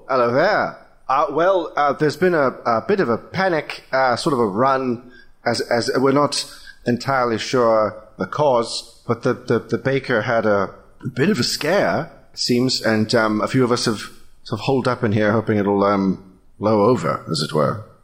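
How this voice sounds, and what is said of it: Exaggerated British accent. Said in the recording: “Wow, really British.”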